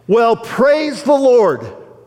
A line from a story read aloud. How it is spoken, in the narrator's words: Handel shouted out